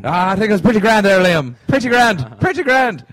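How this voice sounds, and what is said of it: Put-on Irish accent. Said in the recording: “another perfect Irish accent”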